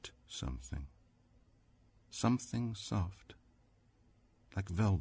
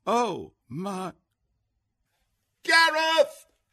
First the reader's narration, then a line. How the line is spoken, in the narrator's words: shrieked